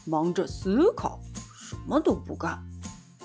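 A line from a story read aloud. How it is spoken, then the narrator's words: Low mumble. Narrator (Chinese): 大老鼠低声咕哝着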